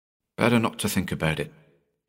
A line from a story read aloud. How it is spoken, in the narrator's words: he mumbled